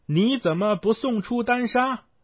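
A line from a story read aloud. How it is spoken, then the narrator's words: Shouting. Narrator (Chinese): 孙悟空 喊道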